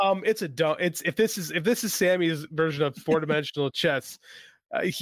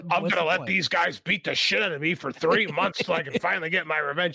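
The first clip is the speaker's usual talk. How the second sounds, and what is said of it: Imitates another person's voice. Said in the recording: “That's my Sammy impression.”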